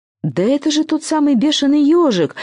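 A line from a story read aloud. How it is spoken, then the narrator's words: Exclamation. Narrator (Russian): воскликнул Злати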